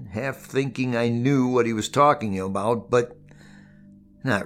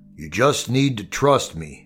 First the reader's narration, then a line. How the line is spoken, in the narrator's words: he said, and then his voice deepened, sticking in his throat as the words came